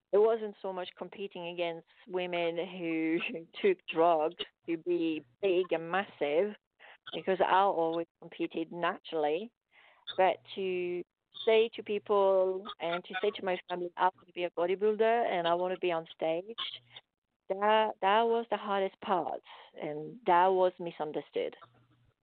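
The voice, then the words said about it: Speaks with a noticeable accent. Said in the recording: “You have a beautiful accent.”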